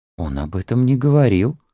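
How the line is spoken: Breathless exhale. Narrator (Russian): выдохнула Мэриан

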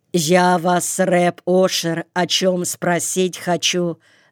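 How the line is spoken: Plain. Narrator (Russian): сказал он

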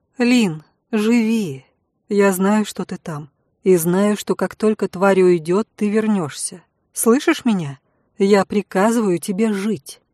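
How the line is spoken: Quiet, after deep sigh. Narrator (Russian): Глубоко вздохнула и тихо сказала

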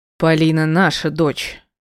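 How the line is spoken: Barked. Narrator (Russian): рявкнул Игорь

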